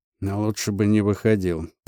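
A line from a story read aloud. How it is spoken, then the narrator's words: Muttered. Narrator (Russian): пробормотал Трофимов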